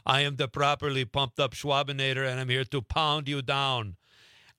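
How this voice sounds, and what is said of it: Arnold Schwarzenegger Austrian accent impression. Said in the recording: “You would speak in an Arnold Schwarzenegger Austrian accent.”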